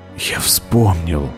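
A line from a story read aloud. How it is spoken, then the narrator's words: Whispered. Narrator (Russian): прошептал Зет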